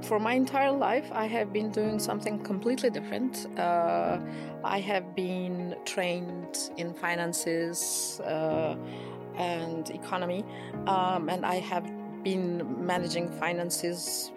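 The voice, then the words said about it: Voice strained by sore throat. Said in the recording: “I have a sore throat a bit, and I might be trying to clear it from time to time.”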